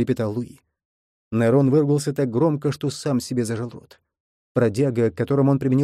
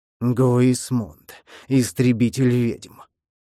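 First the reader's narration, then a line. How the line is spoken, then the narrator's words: Growling into ear. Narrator (Russian): прорычал Нерон принцу в ухо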